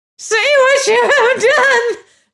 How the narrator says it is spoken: she screamed

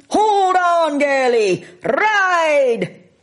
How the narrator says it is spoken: McLeod shouting

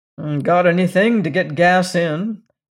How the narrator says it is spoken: he grunted surlily

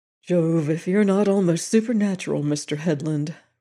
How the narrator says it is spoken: returned that gentleman with a heavy sigh

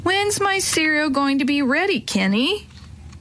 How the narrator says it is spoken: Marianne kept whining

